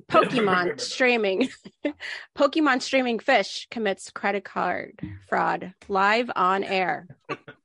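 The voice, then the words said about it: Slightly weird, unwell-sounding voice. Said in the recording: “I'm sick, so my voice sounds a little weird ... Sounds weird.”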